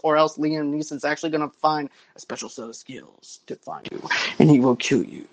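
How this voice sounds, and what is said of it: Dramatic movie trailer narrator voice. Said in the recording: “that's my movie trailer voice, not a Liam Neeson voice”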